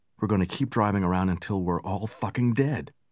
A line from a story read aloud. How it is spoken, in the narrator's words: Over and over he muttered